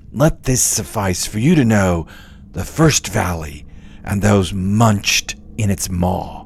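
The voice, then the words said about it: Put-on character voice for Virgil. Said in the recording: “doing the Virgil voice”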